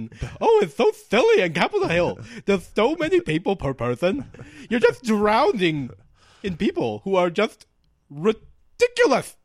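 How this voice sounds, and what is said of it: Imitates a stereotyped Capitol Hill resident. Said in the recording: “That's a good impression of somebody who would live on Capitol Hill, actually.”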